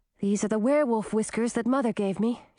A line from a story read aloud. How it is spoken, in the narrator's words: said